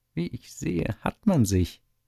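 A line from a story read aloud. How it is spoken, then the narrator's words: Villain laughing. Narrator (German): lacht der böse Schlich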